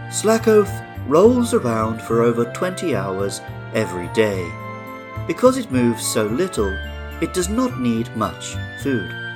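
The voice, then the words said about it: David Attenborough impression. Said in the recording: “I will try my best to do a David Attenborough voice.”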